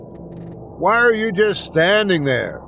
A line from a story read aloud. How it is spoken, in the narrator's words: I yelled